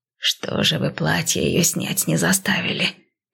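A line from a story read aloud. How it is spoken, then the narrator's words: Grumbling. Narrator (Russian): проворчала она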